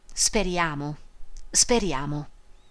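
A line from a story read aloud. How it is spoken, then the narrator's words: Murmur. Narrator (Italian): mormorando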